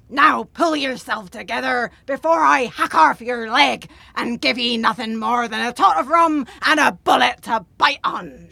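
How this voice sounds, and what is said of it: Put-on pirate voice. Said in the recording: “talking like a pirate”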